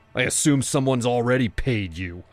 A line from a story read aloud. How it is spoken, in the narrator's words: I shouted